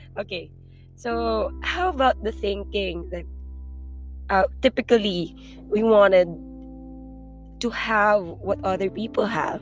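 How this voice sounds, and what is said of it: Mumbling speech. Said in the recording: “I'm mumbling.”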